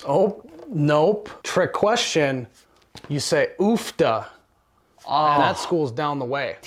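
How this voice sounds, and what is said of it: Put-on Midwest accent. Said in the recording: “I love that Midwest accent ... It is the most endearing accent that there is the Midwest accent ... It doesn't sound uneducated. It doesn't sound obnoxious. It's just adorable.”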